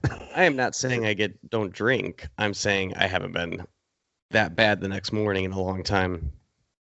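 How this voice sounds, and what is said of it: Scratchy, husky voice. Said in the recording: “my voice is a little shot ... Just scratchy voice ... Sultry ... Sultry voice.”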